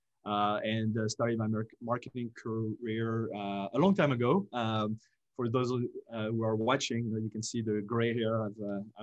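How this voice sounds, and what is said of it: French-accented English. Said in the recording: “originally from France ... as people can hear probably, I grew up in France”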